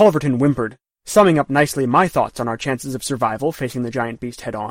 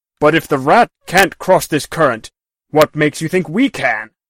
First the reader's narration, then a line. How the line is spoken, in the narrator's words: the Baron snapped